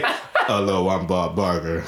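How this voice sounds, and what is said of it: Deep-voiced impression of a host. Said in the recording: “deep voice”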